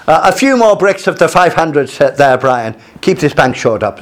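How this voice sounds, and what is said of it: Bad imitation Irish accent. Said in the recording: “My imitation Irish accent is very bad”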